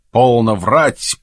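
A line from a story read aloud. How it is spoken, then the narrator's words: Stern interruption. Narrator (Russian): прервал я строго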